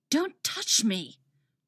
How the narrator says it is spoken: Wally hisses

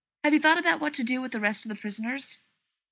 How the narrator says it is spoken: Rodney asks sharply

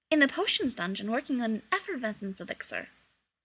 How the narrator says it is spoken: he said quickly

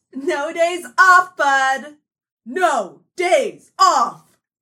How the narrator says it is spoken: Athena, cackling, shouted to Manny

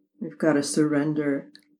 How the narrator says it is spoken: Aggie mumbled

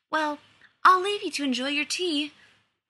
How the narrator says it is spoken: said, maybe too brightly

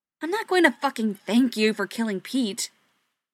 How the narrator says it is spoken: Joe snapped

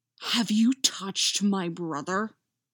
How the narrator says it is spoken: Jason hisses

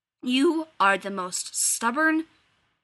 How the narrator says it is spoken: he growls against her mouth

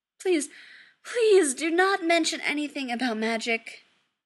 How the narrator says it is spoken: he pleads

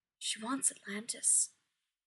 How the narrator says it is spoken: whispers

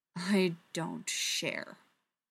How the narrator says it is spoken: she growls, so low and ferocious

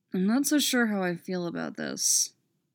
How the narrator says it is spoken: Derek mutters

